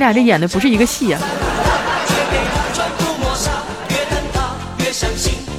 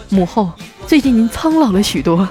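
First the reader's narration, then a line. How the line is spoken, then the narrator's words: Sighing, gentle. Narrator (Chinese): 他叹了口气，温柔的说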